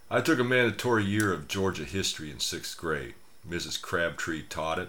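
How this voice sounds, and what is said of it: Southern American drawl. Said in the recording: “Y'all can still hear some of my southern drawl”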